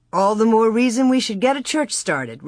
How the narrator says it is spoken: Reverend Alden answered cheerfully

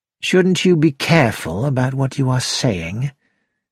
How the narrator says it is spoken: George said quietly

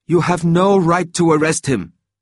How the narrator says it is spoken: shouted Emily Schindler

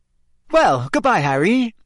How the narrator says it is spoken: Rita Skeeter called merrily to him

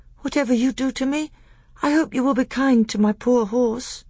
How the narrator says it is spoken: said Caspian in a feeble voice

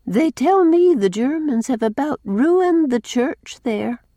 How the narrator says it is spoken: sighed Cousin Sophia

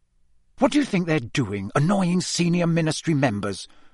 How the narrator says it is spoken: Percy hissed, watching Fred and George suspiciously

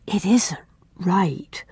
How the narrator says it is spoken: whispered Una

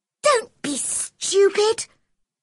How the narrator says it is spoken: cried Mary

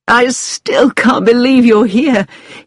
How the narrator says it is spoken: he said with an excited little laugh

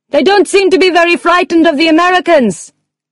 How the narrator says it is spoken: Carla shouted

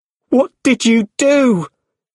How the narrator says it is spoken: He shouted

